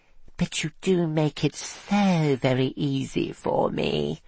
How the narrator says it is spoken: she purred

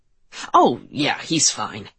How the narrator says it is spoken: he scoffed

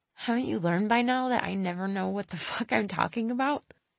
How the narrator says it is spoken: I laughed

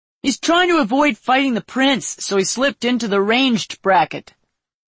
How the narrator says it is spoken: a man shouted

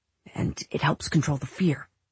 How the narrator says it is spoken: more quietly he added

